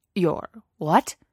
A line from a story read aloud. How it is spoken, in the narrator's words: Obi-Wan sputtered